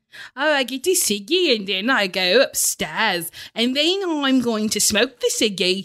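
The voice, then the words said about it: Poor attempt at Liverpool accent. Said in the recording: “a thick Liverpool accent ... the accent you're doing is a stroke ... terrible at accents. Can't sing, can't do an accent.”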